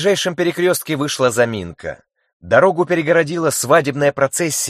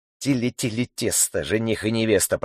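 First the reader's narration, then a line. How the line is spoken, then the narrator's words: Impatient muttering. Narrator (Russian): пробормотал нетерпеливо Плахов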